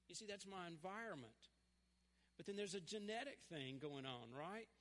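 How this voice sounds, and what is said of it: Southern US accent. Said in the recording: “I will have a southern accent my entire life... I'm a Tennessee boy... I'm southern and I'm just going to always talk like this”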